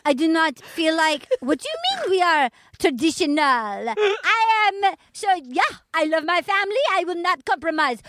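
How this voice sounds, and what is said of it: Slightly Asian put-on accent. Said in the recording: “Can you do the accent? ... It's slightly Asian, which I love. ... just a little”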